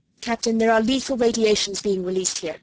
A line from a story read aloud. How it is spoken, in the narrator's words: he said